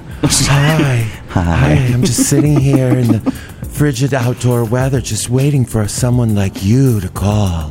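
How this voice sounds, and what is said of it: Soft, sultry phone-sex-operator voice. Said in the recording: “I could soften it down and sound like a phone sex operator”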